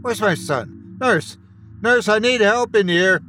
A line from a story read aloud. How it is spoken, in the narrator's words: I shouted